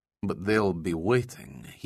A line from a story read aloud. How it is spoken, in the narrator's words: he muttered